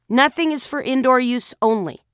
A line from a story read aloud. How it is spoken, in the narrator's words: I said